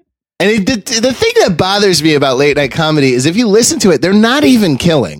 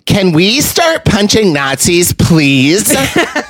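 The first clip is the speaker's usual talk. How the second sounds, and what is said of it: Imitates another person's voice. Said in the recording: “my impression of a Colbert late night set”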